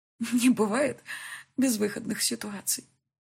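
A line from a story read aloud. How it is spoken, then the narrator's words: Sobbing, tearful reply. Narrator (Russian): ответила я сквозь слезы и рыдания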